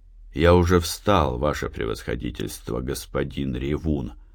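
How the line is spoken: Calm. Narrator (Russian): спокойно сказал Никитин

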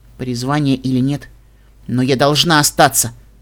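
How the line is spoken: Firm voice. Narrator (Russian): твердым голосом сказала волшебница

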